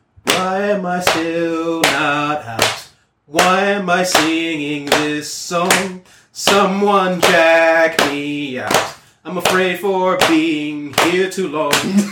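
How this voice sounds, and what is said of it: Sung lines in a put-on accent. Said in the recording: “For some reason I'm keeping this accent.”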